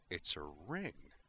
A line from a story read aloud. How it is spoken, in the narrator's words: murmured